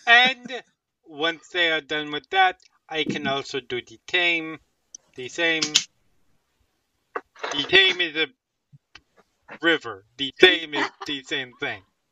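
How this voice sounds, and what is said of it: Invented put-on accent. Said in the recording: “You chose this accent. ... I did choose this accent. ... Actually, I didn't choose it. I invented it.”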